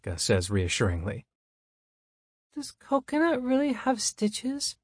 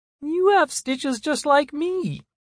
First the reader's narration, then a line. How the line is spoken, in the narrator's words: I squeak in my play voice